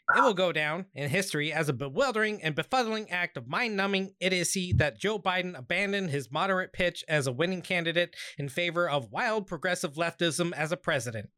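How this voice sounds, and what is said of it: Ben Shapiro impression. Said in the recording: “let me put on my Ben Shapiro voice real quick. ... You forgot to sound out of breath at the very end of the sentence.”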